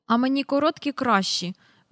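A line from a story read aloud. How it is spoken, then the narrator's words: Grumbling. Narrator (Ukrainian): буркнув Майкл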